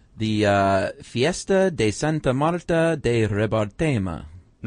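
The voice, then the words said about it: Put-on Italian or Spanish accent. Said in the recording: “Was that Italian or Spanish accent? ... They're close.”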